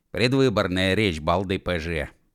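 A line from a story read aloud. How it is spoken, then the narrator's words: Grumble. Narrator (Russian): проворчал Уэф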